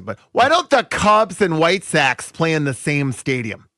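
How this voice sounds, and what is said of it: Put-on accent for imagined person. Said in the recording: “I don't know why this person has this accent”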